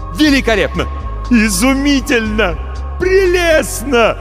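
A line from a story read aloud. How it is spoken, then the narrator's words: Shouting wildly. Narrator (Russian): кричал Марамбаль, не опасаясь, что его сочтут безумным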